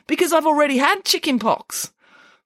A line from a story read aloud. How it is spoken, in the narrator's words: said Michael happily